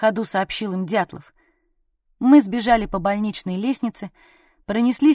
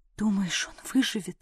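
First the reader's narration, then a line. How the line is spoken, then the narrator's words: Whispered question. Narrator (Russian): спросила я почему-то шепотом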